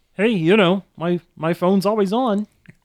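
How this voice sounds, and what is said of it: Kermit the Frog voice. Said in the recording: “That's a very good modern Kermit.”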